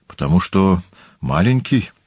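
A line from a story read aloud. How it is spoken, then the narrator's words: Uncertain answer. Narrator (Russian): ответил Публий неуверенно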